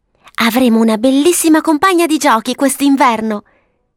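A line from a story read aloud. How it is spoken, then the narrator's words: Exclaiming. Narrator (Italian): esclamò a un certo punto Violetta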